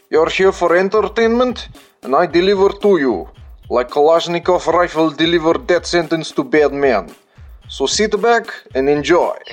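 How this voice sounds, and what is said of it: Put-on Russian accent. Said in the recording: “Today we talk in Russian accent for introduction because, well, it is badass.”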